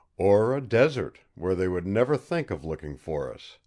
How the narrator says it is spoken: laughed happily

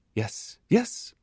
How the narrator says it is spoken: he exclaimed

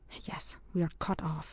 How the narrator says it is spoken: he whispered

